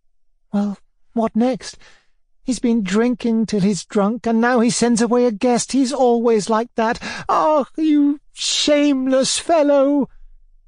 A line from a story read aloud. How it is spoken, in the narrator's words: cried Alexandra Semyonovna, almost in tears